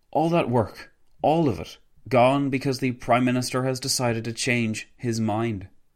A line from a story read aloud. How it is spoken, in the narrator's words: Wilson sighed loudly before exclaiming